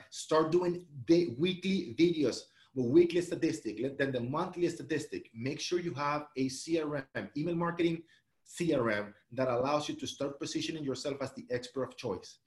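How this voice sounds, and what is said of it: Speaking very fast. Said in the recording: “I'm saying this very fast”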